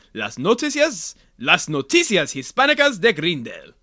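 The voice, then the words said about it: Spanish-language announcer voice. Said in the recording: “You have a good Spanish announcer voice.”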